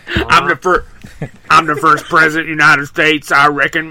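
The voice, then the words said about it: Texan drawl, Billy Bob Thornton impression. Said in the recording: “Billy Bob ... Would he not even try to hide the accent? ... No, full Texan. ... he's doing the sling blade.”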